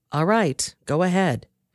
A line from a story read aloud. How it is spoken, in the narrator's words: he said